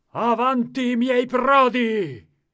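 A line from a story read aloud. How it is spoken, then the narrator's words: King's rallying shout. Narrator (Italian): gridava Re Leonzio, incitando alla lotta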